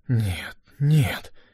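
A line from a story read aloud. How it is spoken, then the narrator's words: Whisper. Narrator (Russian): прошептал Дженнингс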